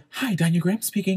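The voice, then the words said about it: Polished professional phone voice. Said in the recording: “my mom is the one that taught me how to do a professional voice.”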